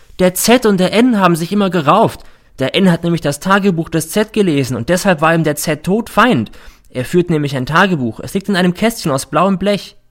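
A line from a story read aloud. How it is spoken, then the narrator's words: Sudden shout. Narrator (German): schreit plötzlich der R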